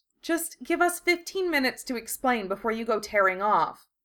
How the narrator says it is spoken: Hermione pleaded

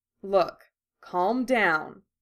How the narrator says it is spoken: he said firmly, but keeping his voice as calm and soothing as he could at the same time

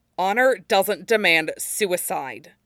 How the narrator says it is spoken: Zuko said bitterly

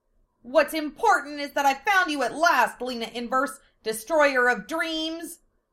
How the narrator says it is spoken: Martina screamed at Lena

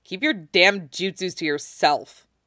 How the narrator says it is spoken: he growls

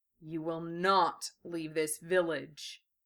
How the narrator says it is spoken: Gara said, in a low, dangerous growl

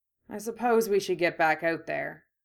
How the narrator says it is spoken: Harry said, sighing

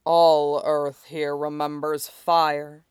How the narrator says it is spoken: the dragon growled

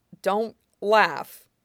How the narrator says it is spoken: Iroh told himself firmly

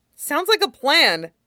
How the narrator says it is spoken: Midoriya said excitedly

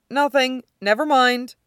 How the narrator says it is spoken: Scott says hastily

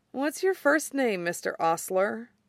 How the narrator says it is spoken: he mumbles, snuggling with Roy's shoulder

